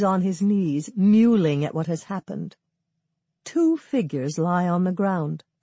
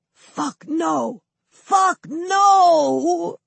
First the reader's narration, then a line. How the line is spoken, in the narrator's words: Douglas, shout whispering